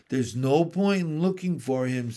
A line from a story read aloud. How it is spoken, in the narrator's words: said Mr